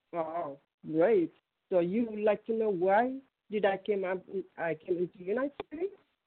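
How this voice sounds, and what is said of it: Thick foreign accent. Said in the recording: “the accent that I heard last week, because it's thick”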